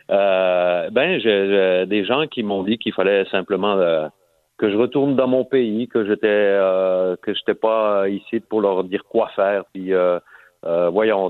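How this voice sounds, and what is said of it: Slight foreign accent in French. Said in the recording (French): “mon petit accent qui subsiste, malgré que ça fait 29 ans que je suis au Québec”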